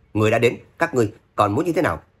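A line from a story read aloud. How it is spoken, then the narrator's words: Loud angry shout. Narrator (Vietnamese): Thất Công Phục trợn mắt hét lớn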